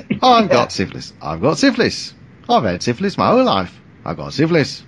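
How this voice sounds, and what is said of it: Put-on upbeat Australian-sounding accent. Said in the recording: “that was actually a pretty good accent, by the way ... that sounded more Australian”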